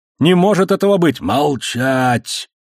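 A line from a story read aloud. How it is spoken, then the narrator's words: Grumble. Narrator (Russian): проворчал Азад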